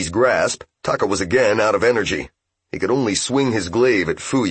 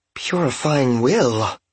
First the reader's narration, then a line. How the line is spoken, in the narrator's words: breathed Fuyu, seemingly genuinely surprised